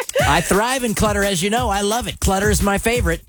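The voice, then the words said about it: Sarcastic delivery. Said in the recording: “says that sarcastically.”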